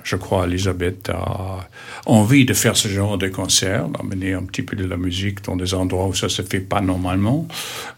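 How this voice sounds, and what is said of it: Slight foreign accent. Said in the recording (French): “votre léger accent”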